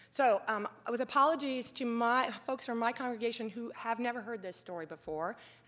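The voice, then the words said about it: Strained, failing voice. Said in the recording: “I'm about to lose my voice too”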